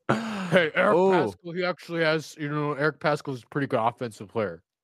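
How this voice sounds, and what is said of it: Imitates another person's voice. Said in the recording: “my Nate Duncan impression. It was really bad. I didn't try, though, either.”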